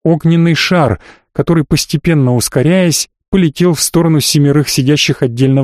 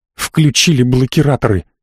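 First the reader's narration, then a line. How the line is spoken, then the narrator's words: Through gritted teeth. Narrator (Russian): сквозь зубы бросила мне Гира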